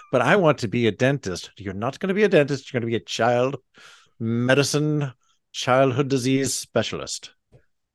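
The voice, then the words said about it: Strong put-on brogue accent. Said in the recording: “that's a much stronger brogue”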